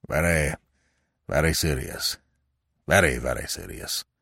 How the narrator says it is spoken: he muttered

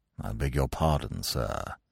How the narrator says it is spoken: he said in a sort of hushed voice

